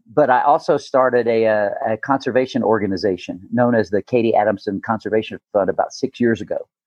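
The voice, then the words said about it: Slight Southern US accent. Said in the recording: “You may catch a twinge of an accent every now and then. ... A little bit.”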